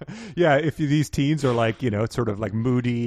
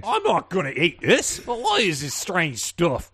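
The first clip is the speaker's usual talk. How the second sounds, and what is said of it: Put-on British accent. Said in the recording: “he did it in a British accent, so it probably sounded very nice ... is he a chimney sweep?”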